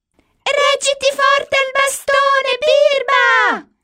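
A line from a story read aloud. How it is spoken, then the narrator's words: Two voices shouting. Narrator (Italian): gli gridano Millie e Molly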